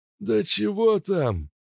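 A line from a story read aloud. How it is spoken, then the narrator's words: Wheezing, voiceless rasp. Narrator (Russian): Он и правда сипел, как сифилитик без голосовых связок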